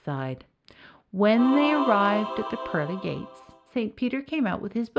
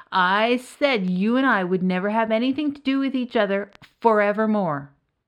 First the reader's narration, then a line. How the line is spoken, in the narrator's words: the devil's voice called out nervously